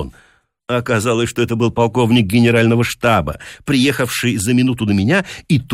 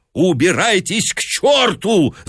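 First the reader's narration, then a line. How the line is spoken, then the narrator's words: Screaming. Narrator (Russian): завопил он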